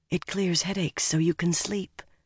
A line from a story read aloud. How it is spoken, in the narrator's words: Egwene said just as softly, and nearly as grimly